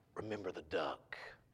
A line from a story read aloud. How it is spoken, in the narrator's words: She began to whisper to him